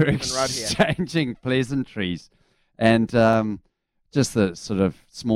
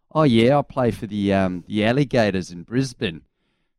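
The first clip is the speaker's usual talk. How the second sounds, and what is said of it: Put-on Australian accent. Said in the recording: “I can't wait for your Australian accent.”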